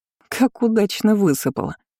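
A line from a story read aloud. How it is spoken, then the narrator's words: Laughing princess. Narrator (Russian): рассмеялась принцесса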